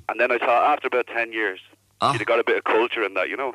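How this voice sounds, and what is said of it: Dublin Irish accent. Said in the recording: “whereabouts in Dublin? Sure, I can tell that by your accent, of course.”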